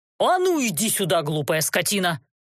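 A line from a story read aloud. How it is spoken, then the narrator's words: Angry bark. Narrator (Russian): Злобно гаркнул он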